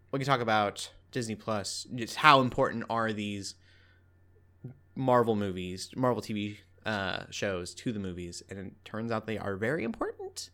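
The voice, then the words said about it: Southern American accent. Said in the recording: “I'm turning real Southern ... My accent is changing ... it's just settling in”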